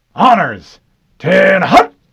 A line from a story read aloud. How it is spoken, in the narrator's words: Mendez barked